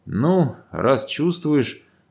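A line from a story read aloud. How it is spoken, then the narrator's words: Half smirk, half sigh. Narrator (Russian): то ли усмехнулся, то ли вздохнул бородач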